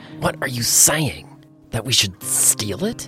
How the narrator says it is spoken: He leaned forward, hissing

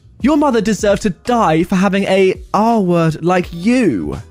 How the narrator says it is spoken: she screamed

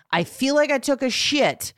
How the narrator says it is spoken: say triumphantly

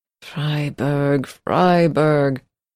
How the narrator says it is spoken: And you muttered

